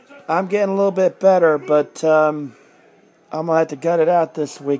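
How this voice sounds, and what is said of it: Sick-sounding voice. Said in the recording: “as you can tell from my voice, I'm not exactly 100%... I've been sick all weekend”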